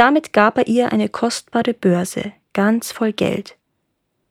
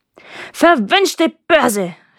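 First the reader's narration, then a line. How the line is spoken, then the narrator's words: Shouted. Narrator (German): schrie Mary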